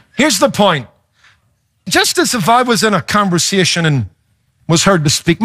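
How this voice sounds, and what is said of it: Foreign accent, Irish or South African-sounding. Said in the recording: “I recognize that accent. ... I've been taken from everything from a German to a South African to an Australian ... my accent might cause people to turn and go, "Hey, he's got an accent. Are you from Ireland or South Africa or Australia?"”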